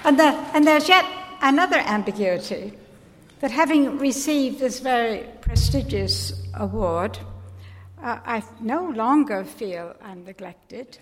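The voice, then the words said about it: American accent with English tinge. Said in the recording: “You can probably hear the English in Anne Stevenson's accent.”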